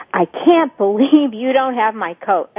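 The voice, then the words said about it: Judgmental, threatening angry tone. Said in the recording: “I could even say that and be acting out by my tone of voice ... that would be acting out because I'm judgmental and threatening strictly by virtue of my tone of voice”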